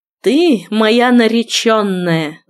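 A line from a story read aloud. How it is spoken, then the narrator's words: Angry exhaled words. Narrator (Russian): зло выдохнул он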